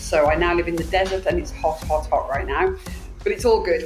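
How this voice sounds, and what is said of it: British accent. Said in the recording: “I'm originally from the UK, as the accent may give it away”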